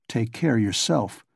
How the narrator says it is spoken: muttered

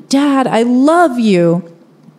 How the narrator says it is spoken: I yell towards my dad

